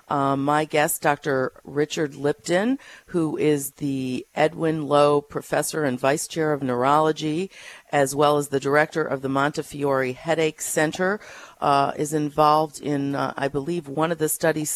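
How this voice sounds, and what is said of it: Congested, hoarse voice. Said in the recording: “excuse my voice. I have a terrible cold this week.”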